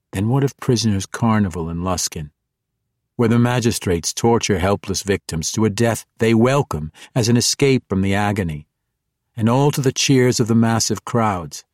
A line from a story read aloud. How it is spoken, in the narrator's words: He asked calmly and seriously